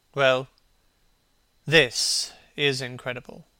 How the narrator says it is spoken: repeated Hallward, rather bitterly

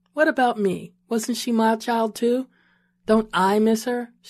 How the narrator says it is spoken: she asked

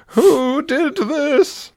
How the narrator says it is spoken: She wailed

